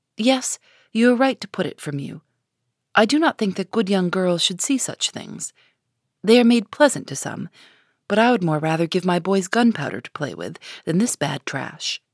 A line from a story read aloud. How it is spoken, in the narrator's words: he was ready to say quite naturally, but very gravely